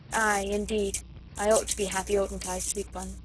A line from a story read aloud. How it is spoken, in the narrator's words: said Marguerite, with a wistful little sigh